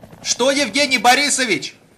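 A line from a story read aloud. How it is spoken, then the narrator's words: Shouting over propeller noise. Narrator (Russian): закричал помощник из-за шума винтов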